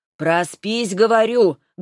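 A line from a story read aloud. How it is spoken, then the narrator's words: Loud reply. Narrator (Russian): громко отвечала Тамара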